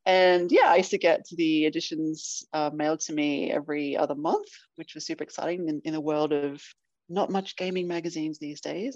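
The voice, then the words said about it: Australian accent. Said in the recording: “if you can't tell from my accent, I am from Australia”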